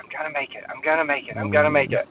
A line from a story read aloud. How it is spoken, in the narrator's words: I can hear like whispering in my ear